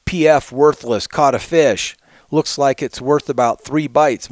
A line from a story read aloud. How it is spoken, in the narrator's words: sister, the troll, would yell